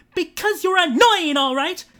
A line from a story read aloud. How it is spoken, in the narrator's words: Kate roared